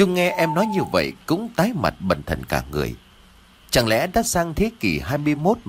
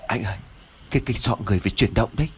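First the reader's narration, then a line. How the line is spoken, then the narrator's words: Stammering, frightened. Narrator (Vietnamese): Lễ run rẩy ấp úng nói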